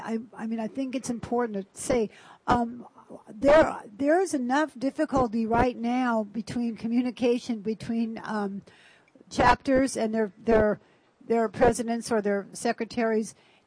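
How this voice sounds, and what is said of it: Hoarse, strained, failing voice. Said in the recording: “I'm losing my voice”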